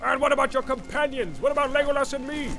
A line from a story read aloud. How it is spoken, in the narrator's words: cried Gimli, unable to contain himself longer